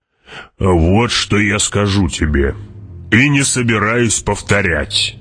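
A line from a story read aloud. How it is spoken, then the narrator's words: Growl. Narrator (Russian): прорычал барон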